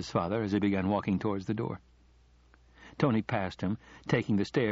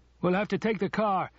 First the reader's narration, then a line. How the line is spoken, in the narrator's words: shouted his father